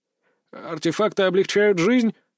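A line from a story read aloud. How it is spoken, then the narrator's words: Uncertain remark. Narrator (Russian): неуверенно высказался длинноволосый Антон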